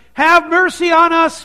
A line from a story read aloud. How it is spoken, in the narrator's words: Two blind men are shouting